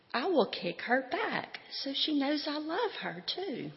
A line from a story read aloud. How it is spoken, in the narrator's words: Molly said excitedly